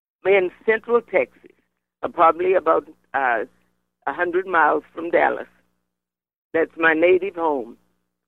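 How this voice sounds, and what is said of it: Slight Caribbean-sounding twang. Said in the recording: “I had the accent from someplace else ... You do have a little bit of a Caribbean sort of twang to your voice”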